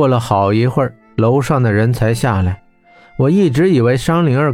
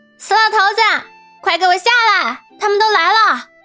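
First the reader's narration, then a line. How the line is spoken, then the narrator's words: Loud yelling. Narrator (Chinese): 商灵儿扯着嗓子喊道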